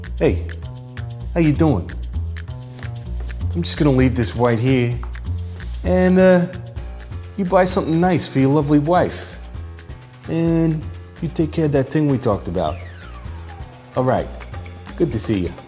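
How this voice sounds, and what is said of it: Bad mafia gangster impression. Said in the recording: “doing a bad impersonation of a member of La Cosa Nostra”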